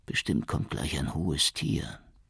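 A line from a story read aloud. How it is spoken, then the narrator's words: Said quietly. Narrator (German): sagte Barudi leise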